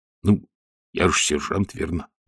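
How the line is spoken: Grumbling mutter. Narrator (Russian): пробурчал Колонн

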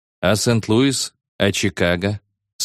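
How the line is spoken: Grim. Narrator (Russian): сказал Пол, мрачно

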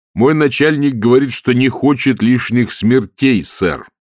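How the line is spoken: Plain. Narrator (Russian): сказал Маркоу

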